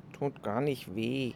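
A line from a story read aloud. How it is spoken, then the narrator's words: Murmuring. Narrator (German): murmelte Kito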